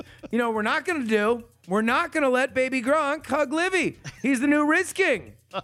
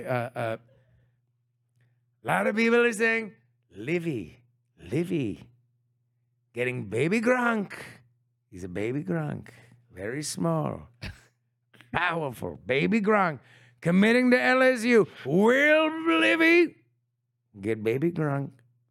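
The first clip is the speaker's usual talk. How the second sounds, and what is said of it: Imitates another person's voice. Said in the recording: “Can you do it in a Trump voice for me, though?”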